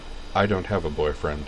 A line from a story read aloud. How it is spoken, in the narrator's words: Dorothy said flatly